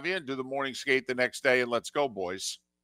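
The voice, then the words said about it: Slight put-on Canadian accent. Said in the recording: “That was an exceptional let's go, boys. ... There was even a little Canadian accent in that.”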